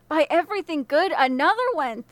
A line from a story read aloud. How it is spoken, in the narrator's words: the man exclaimed